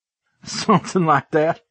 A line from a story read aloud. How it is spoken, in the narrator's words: I chuckled